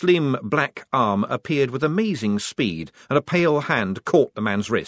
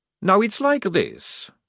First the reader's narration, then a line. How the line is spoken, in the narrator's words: said Maledict calmly